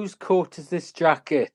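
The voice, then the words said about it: Put-on Welsh accent. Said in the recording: “Your Welsh accent is not bad. ... give me a good, strong Welsh accent”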